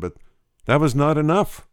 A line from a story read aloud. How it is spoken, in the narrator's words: exclaimed the dying man